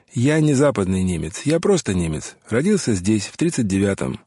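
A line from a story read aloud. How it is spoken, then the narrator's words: Cold clarification. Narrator (Russian): холодно уточнил Уго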